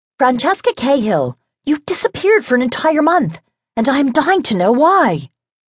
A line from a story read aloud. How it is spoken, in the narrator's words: the former Connie Cahill, now Lady Montrose, cried